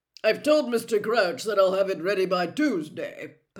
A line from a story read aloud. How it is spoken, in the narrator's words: Percy was saying pompously